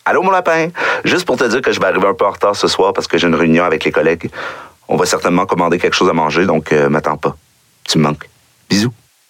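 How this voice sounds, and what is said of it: Québécois French accent. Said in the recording (French): “il y en a avec accent québécois ... C'est l'accent québécois avec une syntaxe française.”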